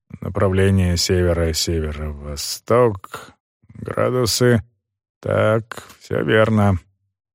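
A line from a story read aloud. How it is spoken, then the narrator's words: Muttering to herself. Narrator (Russian): бормоча про себя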